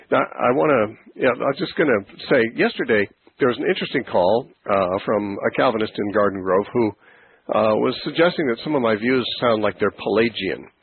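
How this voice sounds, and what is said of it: Congested voice from a cold. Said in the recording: “I caught this bit of a cold ... my voice sounds a little congested. It is”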